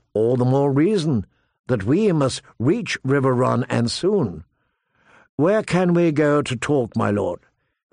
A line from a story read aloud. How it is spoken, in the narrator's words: Calmly she said